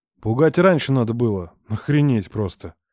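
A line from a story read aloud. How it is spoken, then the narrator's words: Cursing through clenched teeth. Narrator (Russian): Рома снова сквозь зубы выругался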